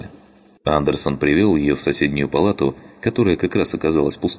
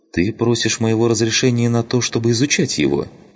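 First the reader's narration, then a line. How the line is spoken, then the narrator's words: Soft. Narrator (Russian): мягко произнесла она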